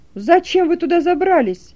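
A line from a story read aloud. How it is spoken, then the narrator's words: Shouting from crowd. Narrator (Russian): кричал один из толпы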